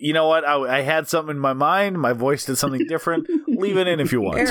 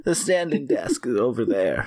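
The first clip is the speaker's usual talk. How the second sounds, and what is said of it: German-accented imitation of another person. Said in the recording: “Is this your Peter Lorre German voice? ... You're doing great right now. ... Knocked it out of the park.”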